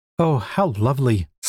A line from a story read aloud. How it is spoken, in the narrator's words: sighed Fluff